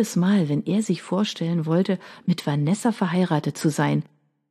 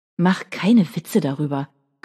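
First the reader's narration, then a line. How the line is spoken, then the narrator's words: Growled. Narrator (German): knurrte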